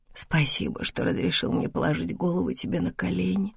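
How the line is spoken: Mutter. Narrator (Russian): пробормотала

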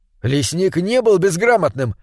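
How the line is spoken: Exclaiming. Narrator (Russian): воскликнул он

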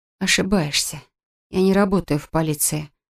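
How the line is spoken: Breathed out. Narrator (Russian): выдохнула Кэт

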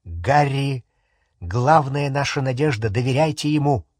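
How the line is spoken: Calm reply. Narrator (Russian): спокойно ответил Люпин

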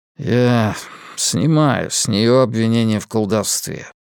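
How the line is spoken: Muttered. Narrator (Russian): пробормотал Коляр

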